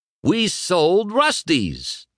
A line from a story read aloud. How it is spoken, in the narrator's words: Dusty exclaimed